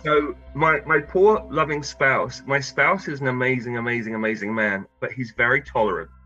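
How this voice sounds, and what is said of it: English accent. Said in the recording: “obviously folks can detect an accent. You came from England”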